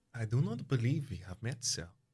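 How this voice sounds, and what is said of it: Woman's voice, faint German accent. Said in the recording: “She says with a faint German accent.”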